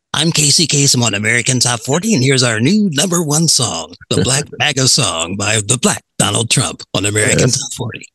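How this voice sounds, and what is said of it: Casey Kasem radio DJ impression. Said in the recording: “great impression”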